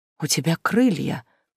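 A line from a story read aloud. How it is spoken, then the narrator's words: Breathless admiring whisper. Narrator (Russian): с восхищенным придыханием прошептала девушка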